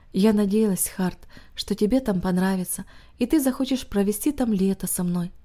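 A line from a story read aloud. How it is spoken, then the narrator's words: Heavy sigh. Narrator (Russian): тяжело вздохнув, она сказала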